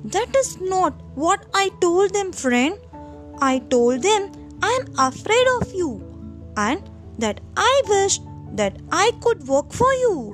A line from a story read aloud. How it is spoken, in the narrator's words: replied the monkey